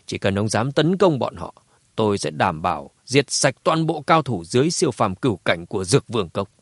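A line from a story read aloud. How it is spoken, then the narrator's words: Cold. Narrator (Vietnamese): lạnh lùng nói tiếp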